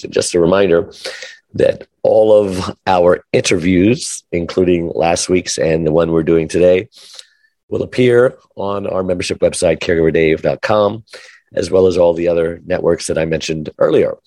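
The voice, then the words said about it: Sick, strained voice. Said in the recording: “sorry about your voice. It's that's such a shame. ... Usually, if I get sick, it just gives me a very nice deep voice, but I've never had strep throat before”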